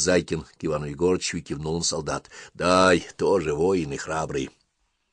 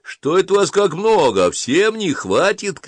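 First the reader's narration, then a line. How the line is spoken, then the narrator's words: Shout. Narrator (Russian): крикнул Зайкин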